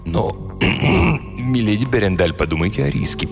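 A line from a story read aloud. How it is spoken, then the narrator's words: Mutter. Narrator (Russian): пробормотал он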